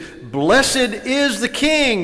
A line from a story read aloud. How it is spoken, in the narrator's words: The people were shouting praises